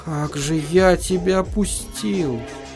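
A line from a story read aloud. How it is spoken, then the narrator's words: Mumbling. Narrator (Russian): бормотал он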